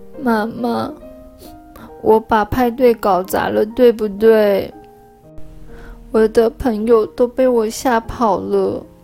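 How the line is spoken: Quiet, ashamed. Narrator (Chinese): 她小声地说

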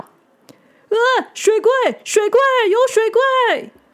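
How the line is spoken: Terrified screaming. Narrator (Chinese): 那个人类就吓得大声叫

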